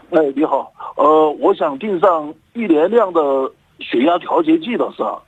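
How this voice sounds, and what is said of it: Southern Chinese accent. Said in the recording (Chinese): “听你这口音是南方口音”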